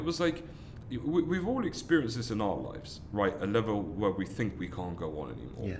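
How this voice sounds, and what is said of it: London English accent. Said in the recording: “I was born and raised in London, as you can tell from my accent”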